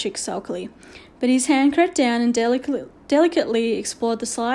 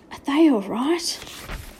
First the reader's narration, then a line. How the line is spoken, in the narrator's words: Omri whispered out of a dry mouth